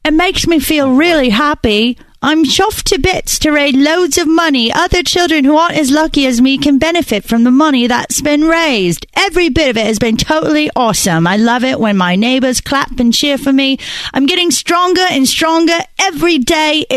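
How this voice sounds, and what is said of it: Put-on Northern English accent. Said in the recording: “should I do my accent? ... he's from Northern England”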